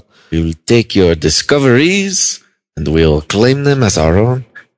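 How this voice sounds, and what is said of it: Put-on French accent. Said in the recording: “the French take it too... I'm terrible at accents... I think you're perfect at it... Some are a terrible, terrible accent”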